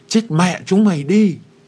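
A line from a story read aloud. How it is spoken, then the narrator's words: Shouting while firing. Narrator (Vietnamese): tôi ... vừa bắn vừa hét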